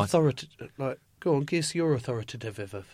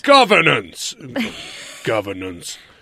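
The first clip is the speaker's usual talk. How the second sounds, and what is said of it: Menacing put-on voice. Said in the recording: “do it in a different voice ... No, less menacing, like more authoritative.”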